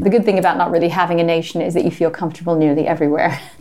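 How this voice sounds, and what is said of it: Mid-Atlantic accent. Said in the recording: “It's mid-Atlantic anyway, isn't it? ... It's rather.”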